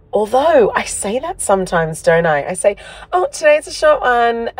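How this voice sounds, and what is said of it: Hoarse, partly lost voice. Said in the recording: “As you can hear, my voice is a bit gone”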